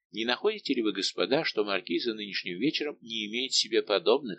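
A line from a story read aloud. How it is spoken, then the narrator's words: Plain. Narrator (Russian): спросил Фуке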